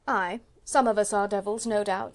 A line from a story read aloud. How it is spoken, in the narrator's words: said Chauvelin dryly